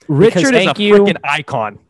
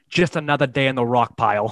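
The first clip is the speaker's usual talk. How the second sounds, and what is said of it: Put-on hardcore Boston accent. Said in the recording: “Hardcore Boston accent”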